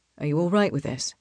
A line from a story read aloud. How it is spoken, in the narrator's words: Raphael asks quietly